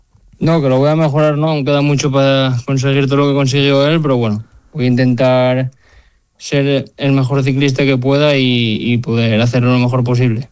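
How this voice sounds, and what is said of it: Asturian Spanish accent. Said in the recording (Spanish): “Me gusta mucho tu acento, ¿eh? Asturiano.”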